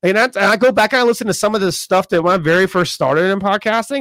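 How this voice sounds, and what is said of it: Raspy voice. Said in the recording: “my little raspy ass”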